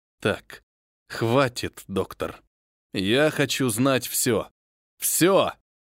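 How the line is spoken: Angry, through gritted teeth. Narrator (Russian): я сердито процедил

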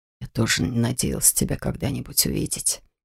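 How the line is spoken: Father whispering. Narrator (Russian): прошептал папа

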